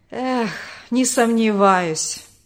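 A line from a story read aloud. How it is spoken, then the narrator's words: Bitter sigh. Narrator (Russian): горько вздохнул отец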